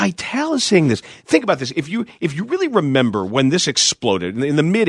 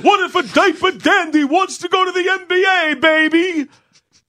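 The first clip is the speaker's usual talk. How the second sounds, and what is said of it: Dick Vitale impression. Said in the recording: “That's Dick Vitale. ... Dick Vitale saying that.”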